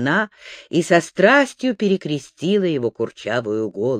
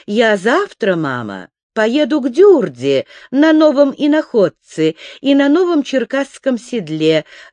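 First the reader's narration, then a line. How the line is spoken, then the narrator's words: Joyful young man. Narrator (Russian): радостно сказал юноша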